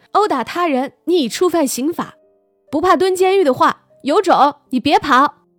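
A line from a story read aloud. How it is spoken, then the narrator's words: Shouting. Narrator (Chinese): 西西 喊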